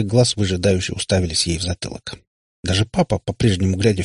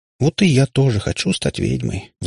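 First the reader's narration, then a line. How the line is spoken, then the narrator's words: Sighed. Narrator (Russian): вздохнула Ирка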